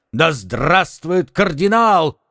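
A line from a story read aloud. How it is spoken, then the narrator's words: Crowd shouting. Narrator (Russian): кричали со всех сторон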